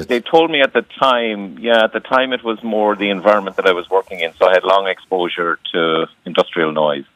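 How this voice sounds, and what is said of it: Irish Cork accent. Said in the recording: “I'm from Cork, so you'll pick up the Cork accent.”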